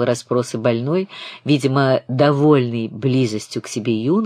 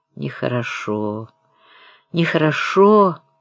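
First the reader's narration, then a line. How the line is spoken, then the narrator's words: Kindly elderly sing-song tone. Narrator (Russian): каким-то старчески добродушным, незлобивым тоном нараспев заметил больной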